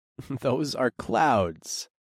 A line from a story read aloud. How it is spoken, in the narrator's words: I chuckled